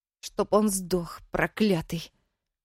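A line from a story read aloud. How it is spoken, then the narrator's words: Hateful through gritted teeth. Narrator (Russian): с ненавистью процедила Дина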